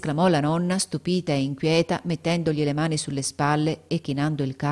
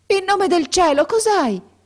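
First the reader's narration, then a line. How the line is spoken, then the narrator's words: Old woman's frantic shout. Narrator (Italian): gridò la vecchia palpando affannosamente il capo del ragazzo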